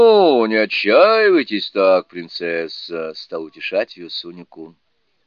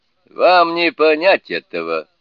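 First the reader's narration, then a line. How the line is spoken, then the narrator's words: Laughing. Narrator (Russian): сказал смеясь Сунь-Кун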